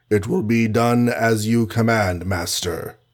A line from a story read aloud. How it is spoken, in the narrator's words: Like a zombie, he intoned